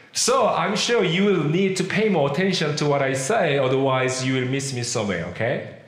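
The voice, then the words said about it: Korean accent in English. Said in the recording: “I'm a middle-aged Asian man, and I'm sure you realize that English is not my first language because of the accent that I have. I was born and raised in Korea.”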